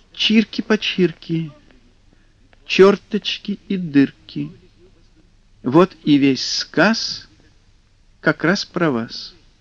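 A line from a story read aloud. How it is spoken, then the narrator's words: Pleasant voice. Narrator (Russian): сундучок произнес приятным голосом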